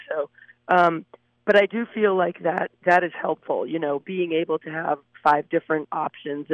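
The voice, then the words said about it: Hoarse, fading voice. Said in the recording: “I apologize for my voice. I seem to be losing my voice”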